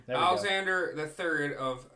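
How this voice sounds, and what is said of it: Loud, yelling monotone reading. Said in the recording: “why are you yelling? ... can you fluctuate your voice a little bit?”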